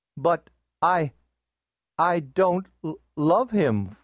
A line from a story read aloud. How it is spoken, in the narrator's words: faltered Columbine